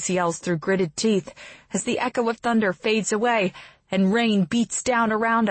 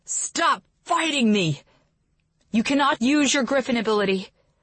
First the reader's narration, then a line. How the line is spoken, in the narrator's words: I command shakily